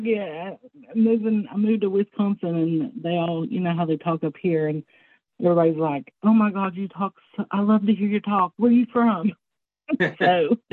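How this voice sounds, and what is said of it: Southern US accent. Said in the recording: “somebody from the North or Midwest tell a Southerner, "Oh, I love your accent," ... y'all got the accent”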